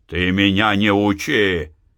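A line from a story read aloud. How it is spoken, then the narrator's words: Shouting. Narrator (Russian): закричал Захар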